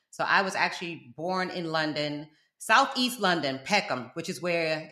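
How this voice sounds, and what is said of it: South Florida American accent. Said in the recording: “I'm from South Florida. That's where this accent come from. But sometimes people will be like, sound like maybe you from New York.”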